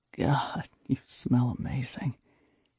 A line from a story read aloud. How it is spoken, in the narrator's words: he said softly in my ear